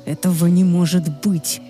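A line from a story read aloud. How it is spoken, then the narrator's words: Furious growl. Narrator (Russian): яростно прорычал Люциан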